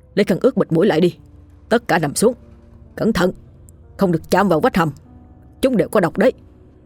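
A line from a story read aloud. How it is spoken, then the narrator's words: Urgent shout. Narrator (Vietnamese): lão Chu quát lên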